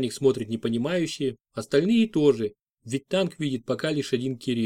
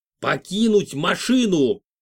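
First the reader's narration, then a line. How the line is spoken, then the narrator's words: Young man's roar. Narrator (Russian): зарычал парень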